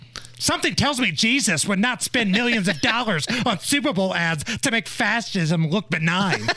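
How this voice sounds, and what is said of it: Imitates another person's voice. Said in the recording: “I will say this just like I think she says it ... That's the best AOC impression I can do.”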